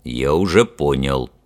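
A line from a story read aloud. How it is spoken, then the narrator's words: Deep bass voice. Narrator (Russian): пробасил капитан Фример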